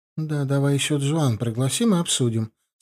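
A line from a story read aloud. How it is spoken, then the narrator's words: Plain. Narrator (Russian): сказала она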